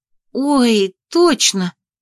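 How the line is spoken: Exclamation. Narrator (Russian): воскликнула Анна

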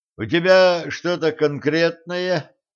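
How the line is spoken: Lazy question. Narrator (Russian): лениво спросил Кощей

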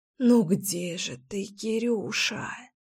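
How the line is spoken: Breathed out. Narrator (Russian): выдохнула я

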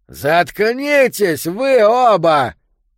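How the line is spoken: Shout across aisle. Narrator (Russian): крикнул Йо со своей стороны прохода

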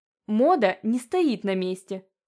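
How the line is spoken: Snorted. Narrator (Russian): фыркнула Ивета

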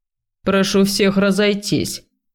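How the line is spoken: Stern command. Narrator (Russian): велел толстяк

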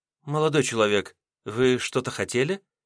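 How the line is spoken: Gentle young woman. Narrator (Russian): мягко спросила девушка

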